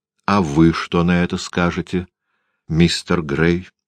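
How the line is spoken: Plain. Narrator (Russian): спросила она

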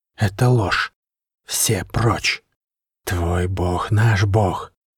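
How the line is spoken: Hissing snake-people. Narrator (Russian): шипели люди-змеи

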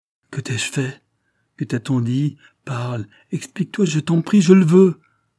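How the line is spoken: Exclaimed. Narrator (French): s'écria-t-elle

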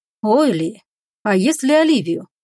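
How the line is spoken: Insinuating inner voice. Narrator (Russian): вкрадчиво отозвался вредный внутренний голос

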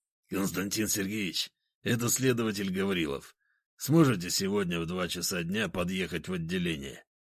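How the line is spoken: Hoarse voice. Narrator (Russian): послышался хриплый голос

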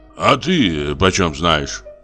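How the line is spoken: Angry grumble. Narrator (Russian): проворчал Самойленко со злобой

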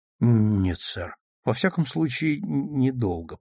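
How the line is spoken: Ashamed mumble. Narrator (Russian): пристыженно пробормотал Клайд

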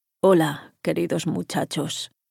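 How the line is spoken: Cavernous voice, interrupted by coughing. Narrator (Spanish): saludó con voz cavernosa, interrumpida por un ataque de tos

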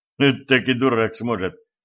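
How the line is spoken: Snorting scoff. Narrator (Russian): хмыкнул стажер

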